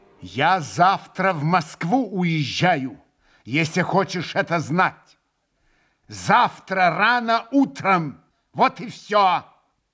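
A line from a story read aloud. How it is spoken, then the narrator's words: Sudden angry, loud, deliberate. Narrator (Russian): Со злобою раздельно и громко вдруг проговорил он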